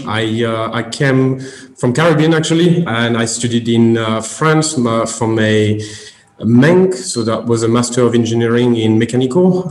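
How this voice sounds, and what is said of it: Slight French accent. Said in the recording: “you have a slight non-English accent. ... although I know you speak absolutely perfect English ... So obviously I'm French.”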